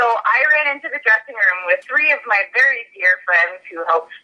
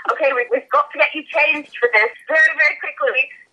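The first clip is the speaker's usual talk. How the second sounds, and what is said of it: Imitates another person's accent. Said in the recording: “he has that accent, so that's why I have to talk like that”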